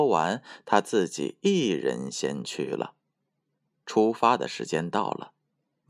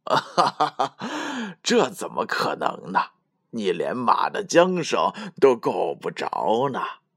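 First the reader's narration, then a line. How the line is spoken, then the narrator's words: Laughing loudly. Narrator (Chinese): 樵夫大笑起来，说道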